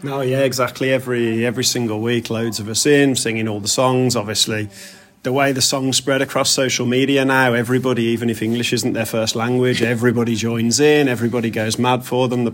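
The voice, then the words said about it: Birmingham accent. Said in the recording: “I'm not a Scouser originally. You can tell from the accent. ... back home in Birmingham”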